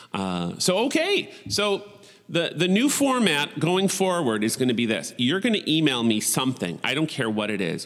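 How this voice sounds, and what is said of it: Nasal Buffalo accent. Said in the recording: “your voice is way too nasally your buffalo accent ... i have one for sure”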